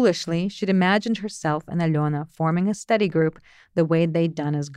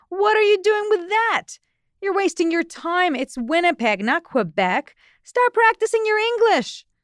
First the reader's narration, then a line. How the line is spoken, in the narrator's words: she'd nearly shouted